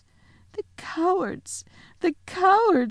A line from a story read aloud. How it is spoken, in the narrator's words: sobbed Susan